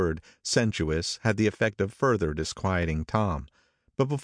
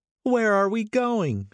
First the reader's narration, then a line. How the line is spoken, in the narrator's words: she cried